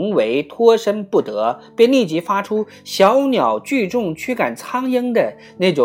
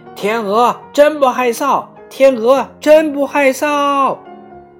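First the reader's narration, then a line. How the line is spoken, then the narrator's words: Shouting in unison. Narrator (Chinese): 它们齐声呼喊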